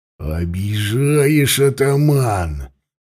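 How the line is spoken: Deep bass drawl. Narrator (Russian): басом протянул Радята

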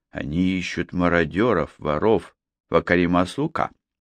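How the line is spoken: Breathless mutter. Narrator (Russian): Снова задышав, Тайрер пробормотал

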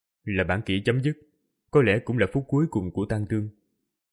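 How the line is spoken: Soft sigh, after pause. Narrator (Vietnamese): im lặng giây lát, khẽ thở dài rồi nói

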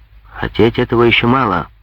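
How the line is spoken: Rough reply. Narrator (Russian): грубо ответил Клопен

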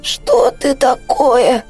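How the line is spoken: Hoarse, strangled throat. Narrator (Russian): из пережатой глотки Аляны хрипло прозвучало

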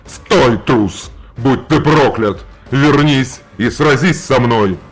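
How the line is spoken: Roaring. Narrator (Russian): проревел Желиман

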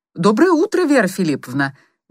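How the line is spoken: Cheerful greeting. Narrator (Russian): весело поздоровался Чуйков

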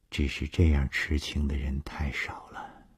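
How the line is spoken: Sighing. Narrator (Chinese): 他叹了一口气说

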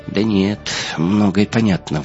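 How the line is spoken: Sudden sigh. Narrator (Russian): вдруг вздохнул Джон

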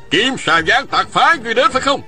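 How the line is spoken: Shouted in unison. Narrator (Vietnamese): Đồng thanh quát hỏi

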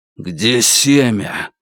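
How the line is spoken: Warrior's exhaled words. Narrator (Russian): Воин выдохнул

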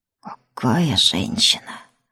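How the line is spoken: Soldier's delighted breathless exclamation. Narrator (Russian): Восторженно выдохнул боец

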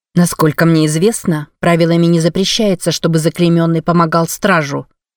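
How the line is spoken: Plain. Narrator (Russian): сказала она

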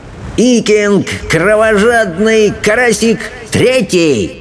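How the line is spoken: Shouted. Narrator (Russian): выкрикнул Элвин Вероломный

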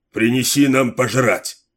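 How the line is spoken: Barked. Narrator (Russian): рявкнул Сет

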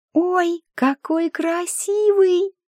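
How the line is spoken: Singsong. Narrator (Russian): нараспев произнесла Флориана

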